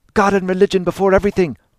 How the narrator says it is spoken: Dante cried

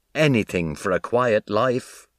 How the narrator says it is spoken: laughed Sis

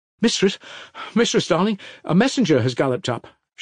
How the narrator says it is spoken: she cried, breathless and joyful

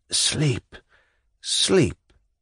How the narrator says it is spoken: muttered faintly

